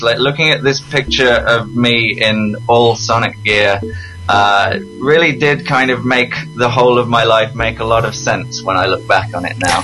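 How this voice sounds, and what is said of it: English accent. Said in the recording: “I grew up in England, as you can probably tell from my accent. I'm not actually Canadian.”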